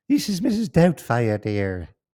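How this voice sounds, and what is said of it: Imitation of Mrs. Doubtfire's voice. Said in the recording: “You do a good impression.”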